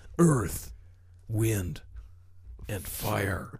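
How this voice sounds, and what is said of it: Dramatic announcer voice. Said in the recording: “Got to go back into the announcer voice.”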